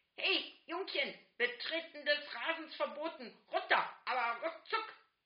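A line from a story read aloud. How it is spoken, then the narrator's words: Bellowing slave driver. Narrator (German): brüllt der wiedergeborene Sklaventreiber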